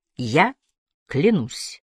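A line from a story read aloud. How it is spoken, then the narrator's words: Plain. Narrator (Russian): сказал он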